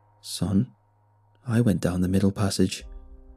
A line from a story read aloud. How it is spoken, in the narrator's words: Dad replied in a monotone voice